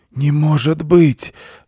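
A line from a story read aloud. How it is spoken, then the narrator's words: Old animal exclaiming. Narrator (Russian): воскликнул старый бобер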